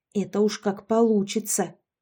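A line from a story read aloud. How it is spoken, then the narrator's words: Hissing. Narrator (Russian): прошипела Яшка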